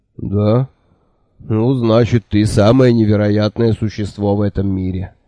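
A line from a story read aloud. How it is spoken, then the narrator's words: Sighing. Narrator (Russian): вздохнул он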